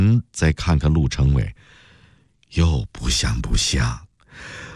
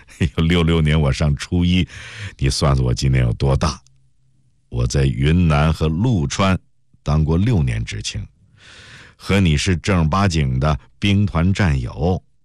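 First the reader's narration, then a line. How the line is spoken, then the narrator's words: Laughing. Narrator (Chinese): 陆成伟笑了起来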